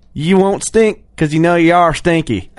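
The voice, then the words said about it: Put-on Southern pirate accent. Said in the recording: “I like the little accent you put in there ... Are you Southern or are you a pirate? ... Southern pirate.”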